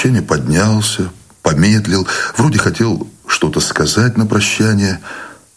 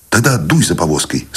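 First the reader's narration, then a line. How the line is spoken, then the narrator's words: Plain. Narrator (Russian): сказал Войтик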